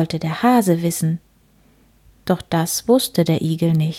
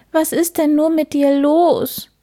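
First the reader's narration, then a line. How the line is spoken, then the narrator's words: Hare sobbing. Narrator (German): schluchzte der Hase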